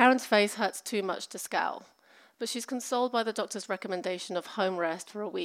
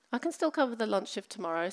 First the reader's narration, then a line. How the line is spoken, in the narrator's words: says